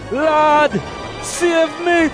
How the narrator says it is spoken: He holler

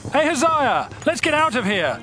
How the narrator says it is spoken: Joram yelled

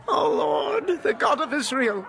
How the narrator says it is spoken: they cried

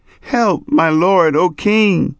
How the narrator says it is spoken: a woman cried to him, saying

